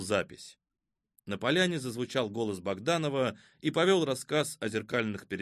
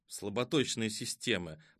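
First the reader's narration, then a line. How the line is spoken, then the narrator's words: Mumbled. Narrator (Russian): пробормотал он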